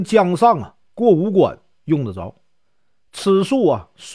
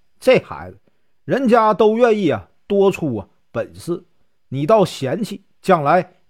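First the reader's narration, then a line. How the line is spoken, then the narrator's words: Laughing. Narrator (Chinese): 真人笑道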